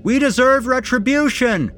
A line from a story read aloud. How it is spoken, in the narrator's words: a voice bellowed